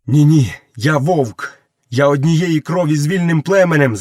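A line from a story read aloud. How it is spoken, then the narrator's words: Shouted. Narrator (Ukrainian): закричав Мауглі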